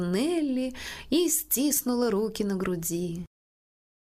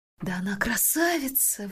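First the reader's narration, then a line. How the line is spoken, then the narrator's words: Breathless exclamation. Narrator (Russian): выдохнула Нелли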